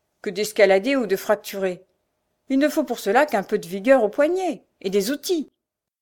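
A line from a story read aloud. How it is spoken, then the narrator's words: Sneering. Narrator (French): dit en ricanant Frochard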